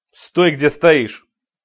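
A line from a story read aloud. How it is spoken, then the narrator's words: Stern shout while moving. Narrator (Russian): строго крикнул он на ходу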